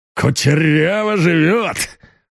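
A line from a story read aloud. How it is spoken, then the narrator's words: Snorting. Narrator (Russian): фыркнул Зубов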